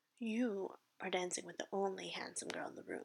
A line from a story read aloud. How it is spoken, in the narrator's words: said Mr